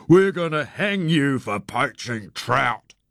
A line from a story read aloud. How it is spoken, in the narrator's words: I bellowed through my cupped hands